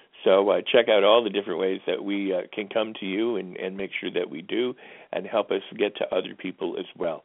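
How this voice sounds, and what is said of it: Strained, fading voice. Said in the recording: “I guess I'm losing my voice here.”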